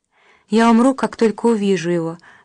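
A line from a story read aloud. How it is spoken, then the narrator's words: Sighing. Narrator (Russian): вздохнула Ася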